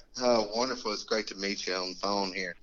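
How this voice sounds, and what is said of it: Southern American accent. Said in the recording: “I love that accent. ... Birmingham, Alabama.”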